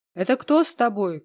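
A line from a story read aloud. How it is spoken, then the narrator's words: Shouted. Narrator (Russian): крикнул он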